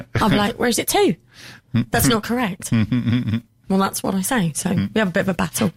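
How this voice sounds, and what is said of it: Distinctive West Country English accent. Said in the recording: “you've still got a fairly distinctive accent... most people could tell you from the West Country”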